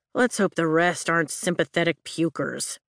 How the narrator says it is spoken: Riddick mutters

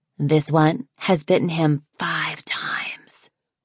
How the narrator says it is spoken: Lynx whispered to Snowfall

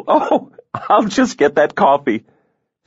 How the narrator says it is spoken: she said with a breathless laugh

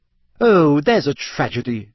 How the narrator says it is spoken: Hermione snapped

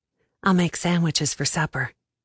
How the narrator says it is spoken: I said, quietly enough that only he could hear it

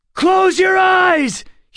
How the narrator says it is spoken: he shouted

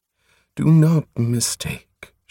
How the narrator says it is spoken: she quavered

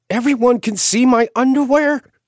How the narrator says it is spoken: she yelped

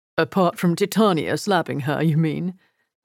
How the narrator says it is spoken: Edgar asked, with a small chuckle

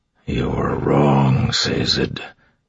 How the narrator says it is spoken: Marsh said quietly

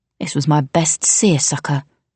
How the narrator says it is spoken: she growled

